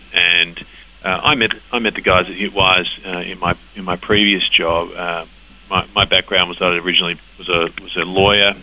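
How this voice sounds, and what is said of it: Australian accent. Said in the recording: “as you might have guessed from my accent, the business did in fact start in Australia”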